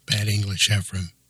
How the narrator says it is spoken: Sam said calmly

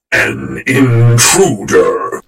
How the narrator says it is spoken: the general growled

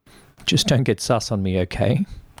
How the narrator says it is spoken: Kai laughed

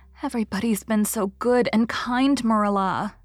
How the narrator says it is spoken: sighed Anne happily

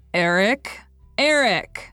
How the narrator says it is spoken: I shouted as loudly as I could across the desert

